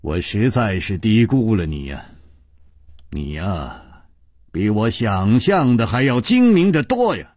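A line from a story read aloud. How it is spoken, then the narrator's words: Sighing. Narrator (Chinese): 楚留香叹道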